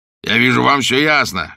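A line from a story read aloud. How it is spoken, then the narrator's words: Coarse laughing. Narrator (Russian): грубо захохотал Бишоп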